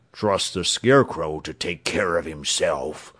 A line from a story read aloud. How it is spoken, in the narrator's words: said the Cowardly Lion in a gruff voice